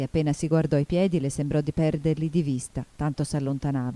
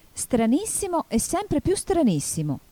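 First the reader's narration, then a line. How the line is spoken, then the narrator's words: Exclaiming. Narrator (Italian): esclamò Alice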